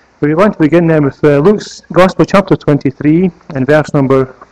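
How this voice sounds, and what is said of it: Scottish accent. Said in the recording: “the Scottish accent with ... here”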